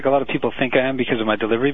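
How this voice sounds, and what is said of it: Sarcastic tone of voice. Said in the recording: “You're being sarcastic right now.”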